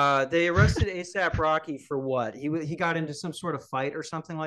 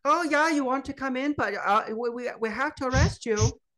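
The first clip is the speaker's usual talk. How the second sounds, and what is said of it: Scandinavian accent drifting into Japanese. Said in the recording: “what the fuck was that accent? I got nervous in the middle of it and it turned Japanese.”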